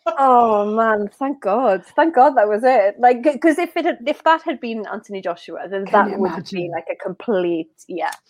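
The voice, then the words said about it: Lovely Welsh accent. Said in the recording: “it's a lovely accent, the Welsh accent ... It's lovely. It's gorgeous.”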